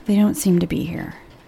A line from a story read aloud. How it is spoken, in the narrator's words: Rose mumbled